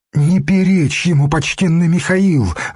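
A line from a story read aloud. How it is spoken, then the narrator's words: Alarmed, pleading plea. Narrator (Russian): взмолилась игуменья, увидев, что воины схватились за мечи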